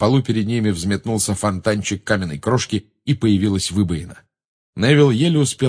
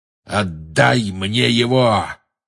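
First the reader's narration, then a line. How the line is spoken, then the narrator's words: Growled into ear. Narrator (Russian): прорычал ему в ухо чей-то голос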